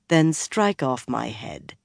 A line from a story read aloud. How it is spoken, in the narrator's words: Swan said calmly